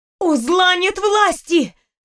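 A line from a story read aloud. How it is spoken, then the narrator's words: Shouting with all strength. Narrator (Russian): закричала я, изо всех сил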